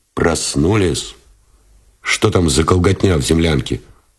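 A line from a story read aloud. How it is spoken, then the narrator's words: Displeased question. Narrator (Russian): спросил Новиков недовольным тоном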